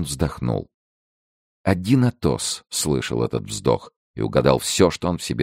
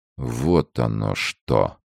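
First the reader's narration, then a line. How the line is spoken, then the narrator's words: Slow, musing to himself. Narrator (Russian): медленно произнес он, словно разговаривая с самим собою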